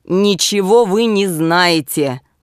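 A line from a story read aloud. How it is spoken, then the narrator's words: Rude objection. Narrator (Russian): возразил грубо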